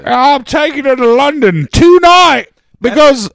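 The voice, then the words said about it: Put-on British accent. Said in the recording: “That's a better accent than she did.”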